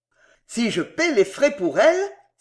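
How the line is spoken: Exclaimed. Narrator (French): s'écria M

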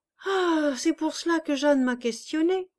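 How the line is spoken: Exclaimed. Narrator (French): s'écria M

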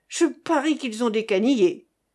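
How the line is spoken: Yelling. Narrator (French): il hurla

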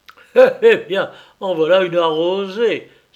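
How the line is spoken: Laughing exclamation. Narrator (French): s'écria-t-il avec un éclat de rire

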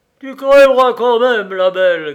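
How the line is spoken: Shrill yelp. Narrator (French): glapit-il

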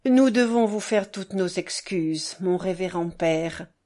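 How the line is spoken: Grave, respectful, smiling. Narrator (French): commença Piotr Alexandrovitch avec un gracieux sourire, mais d'un ton grave et respectueux

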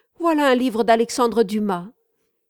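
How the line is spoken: Sudden exclamation. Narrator (French): s'écria tout à coup Gabriel

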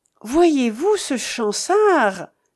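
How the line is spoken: Exclaimed. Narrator (French): s'écria Fréneau

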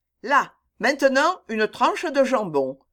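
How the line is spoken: Resolute command. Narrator (French): commanda Jack d'un ton résolu

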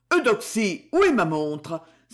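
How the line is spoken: Exclaiming. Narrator (French): s'exclama-t-il

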